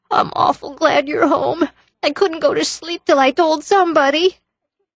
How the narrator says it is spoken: sobbed Davy

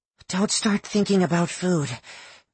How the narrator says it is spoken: she rasped

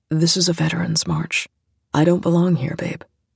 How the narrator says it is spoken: he said quietly

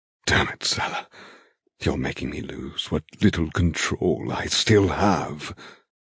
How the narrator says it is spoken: he rasps

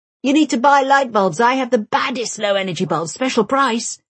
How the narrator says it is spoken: he says eagerly

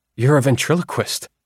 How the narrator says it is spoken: I blurted

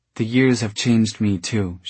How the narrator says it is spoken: she said

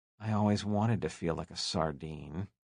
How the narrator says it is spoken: Leonard whispered into his partner's ear

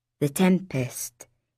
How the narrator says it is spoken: he said quietly

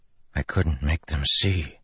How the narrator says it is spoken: Kaladin whispered

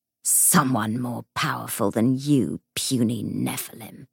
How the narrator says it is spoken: snarled the ghost

